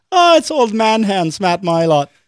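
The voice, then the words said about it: Put-on Irish accent. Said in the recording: “Did they say it with like a little Irish accent?”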